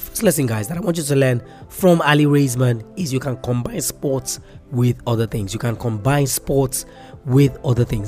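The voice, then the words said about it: Cracking, slightly off-pace sick voice. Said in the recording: “I'm sure you can hear my voice, and you can see that it's a little bit off pace ... I've actually been under the weather ... hear the crack in my voice, this is not how I usually sound”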